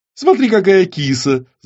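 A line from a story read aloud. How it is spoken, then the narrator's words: Woman laughing. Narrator (Russian): засмеялась женщина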